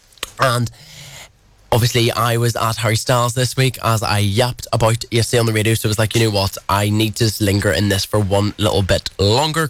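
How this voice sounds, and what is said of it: Booming Irish accent. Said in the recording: “my booming Irish accent”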